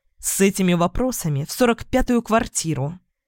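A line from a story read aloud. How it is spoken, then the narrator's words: Snapping. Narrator (Russian): огрызнулась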